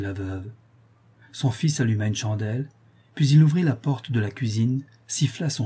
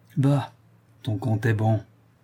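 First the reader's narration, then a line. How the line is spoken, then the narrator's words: Mother murmuring. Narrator (French): murmura la mère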